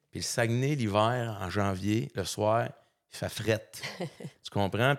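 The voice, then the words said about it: Saguenay Quebec French accent. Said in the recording (French): “comme vous l'avez sûrement remarqué de mon accent, je viens pas d'ici, je viens du Saguenay”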